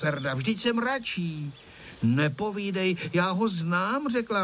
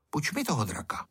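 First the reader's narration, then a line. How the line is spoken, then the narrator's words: Said quietly. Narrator (Czech): řekl tiše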